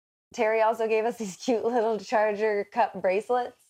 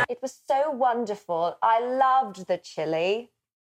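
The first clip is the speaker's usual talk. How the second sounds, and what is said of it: Put-on English accent. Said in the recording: “wasn't wanted to use an English accent again.”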